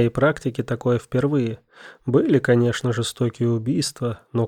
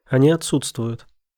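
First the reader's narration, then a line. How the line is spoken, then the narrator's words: Calm reply. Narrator (Russian): спокойно ответил эксперт-криминалист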